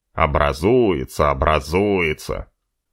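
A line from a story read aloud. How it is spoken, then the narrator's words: Grumbling. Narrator (Russian): ворчал Утеклый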